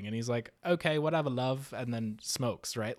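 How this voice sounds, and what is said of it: Bad fake British accent. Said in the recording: “my bad British accent ... your horrible British accent”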